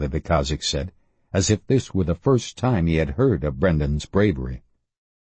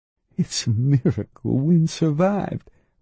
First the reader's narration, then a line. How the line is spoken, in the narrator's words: Raynello said in a tremulous voice